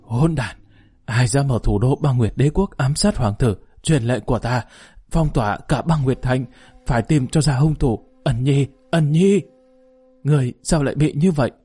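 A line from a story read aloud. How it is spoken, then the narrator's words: Panting. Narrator (Vietnamese): Yến Nam Thiên thở hổn hển nói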